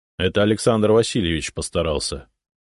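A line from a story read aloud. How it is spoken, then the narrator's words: Grumbling. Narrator (Russian): проворчал Зотов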